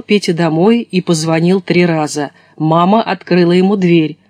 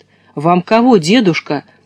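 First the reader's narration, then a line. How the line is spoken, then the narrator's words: Plain. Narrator (Russian): спросила мама наконец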